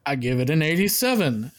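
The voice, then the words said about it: Imitates another person's voice. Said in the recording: “great James impersonation”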